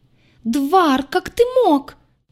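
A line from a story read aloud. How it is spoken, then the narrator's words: Piercing shriek. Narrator (Russian): Пронзительному визгу Аи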